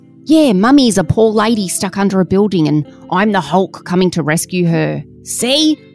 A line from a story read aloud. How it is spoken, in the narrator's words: Todd roared as he pretended to fling debris off Karen's body